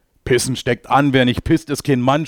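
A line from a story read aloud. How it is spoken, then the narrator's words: Shouting. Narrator (German): schreit er jetzt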